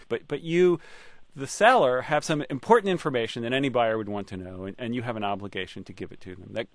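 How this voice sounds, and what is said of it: Usual voice. Nothing is said of it.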